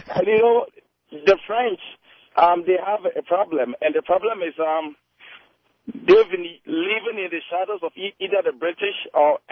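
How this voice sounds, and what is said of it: African accent. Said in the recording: “as you can hear from my accent, I'm from Africa... You have a wonderful accent.”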